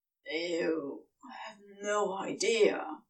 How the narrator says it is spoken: Crowley growled against his skin

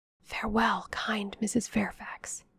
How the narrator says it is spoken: whispered

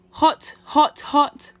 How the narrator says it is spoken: Brother Rabbit shouted

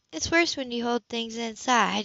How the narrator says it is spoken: she murmured absently

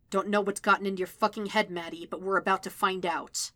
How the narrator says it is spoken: growl

